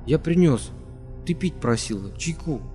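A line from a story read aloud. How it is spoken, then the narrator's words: Crying, mumbling. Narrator (Russian): Он заплакал, пробормотал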